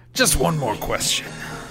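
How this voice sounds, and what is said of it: Gravelly imitation of another person's voice. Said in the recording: “do a Peter Falk impression... That's too gravelly.”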